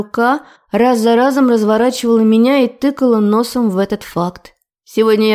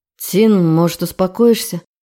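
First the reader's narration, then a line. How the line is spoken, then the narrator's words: Tired. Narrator (Russian): Наконец устало проговорил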